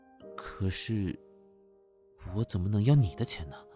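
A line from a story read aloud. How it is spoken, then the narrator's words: Moved, low voice. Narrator (Chinese): 陆枫一脸动容的看着他，低声说道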